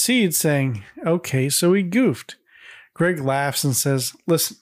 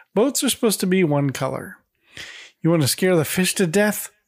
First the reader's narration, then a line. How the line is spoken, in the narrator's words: Greg chuckles and says